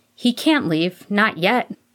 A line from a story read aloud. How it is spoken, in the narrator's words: Harry cried without a second thought